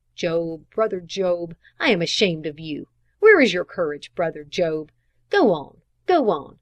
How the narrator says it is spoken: my muttering between my teeth

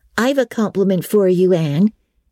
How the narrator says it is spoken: said Diana

